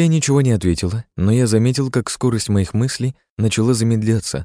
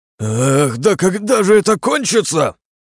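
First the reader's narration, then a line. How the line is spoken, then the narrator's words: Roaring. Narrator (Russian): проревел Илья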